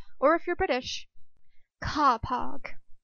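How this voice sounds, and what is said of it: Poor imitation of British accent. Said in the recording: “that was a terrible British accent. I think I actually sounded more like Scarlett O'Hara”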